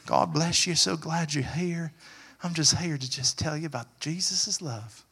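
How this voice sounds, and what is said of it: Put-on Southern American accent. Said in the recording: “Maybe I should talk in a southern accent”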